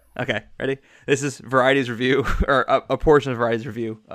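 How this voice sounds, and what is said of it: Usual voice. Nothing is said of it.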